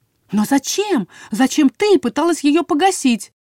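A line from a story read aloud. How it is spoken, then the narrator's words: Exclaimed. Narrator (Russian): воскликнула Анаис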